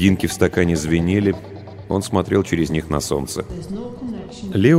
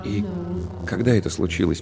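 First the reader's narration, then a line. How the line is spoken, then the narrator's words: Quiet question. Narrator (Russian): поинтересовался он тихо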